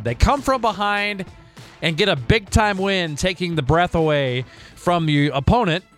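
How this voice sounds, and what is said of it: Hoarse, worn-out voice. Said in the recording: “not a lot of voice left from all the celebrating”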